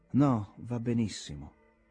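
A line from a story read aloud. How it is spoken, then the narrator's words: Slow, reflective voice. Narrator (Italian): esclamò con voce lenta, come se stesse riflettendo sulla verità dell'affermazione che stava per fare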